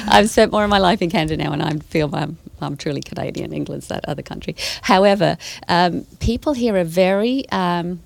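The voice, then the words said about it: English accent. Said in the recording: “my weird accent is from England originally.”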